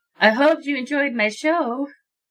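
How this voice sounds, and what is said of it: Seductive character voice. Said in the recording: “Can I sound seductive doing this voice? ... Seductive and hilarious.”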